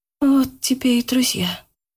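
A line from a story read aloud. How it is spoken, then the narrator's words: Whisper. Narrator (Russian): прошептала Яна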